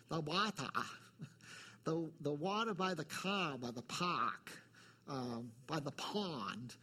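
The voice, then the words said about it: New England accent. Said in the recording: “my New England accent is coming through”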